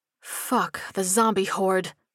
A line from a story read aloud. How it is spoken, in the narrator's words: Sparks muttered